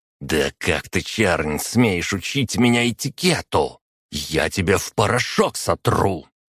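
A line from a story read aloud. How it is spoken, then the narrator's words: Furious, through gritted teeth. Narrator (Russian): его рожа исказилась от ярости, и он процедил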